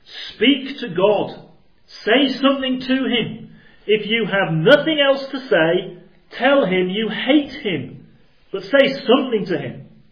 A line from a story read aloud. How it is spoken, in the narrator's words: he shouted